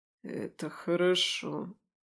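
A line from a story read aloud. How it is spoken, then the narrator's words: Mutter. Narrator (Russian): пробормотал Немиров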